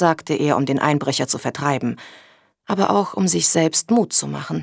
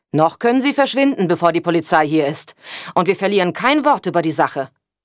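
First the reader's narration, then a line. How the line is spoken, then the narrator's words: Calling out. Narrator (German): rief er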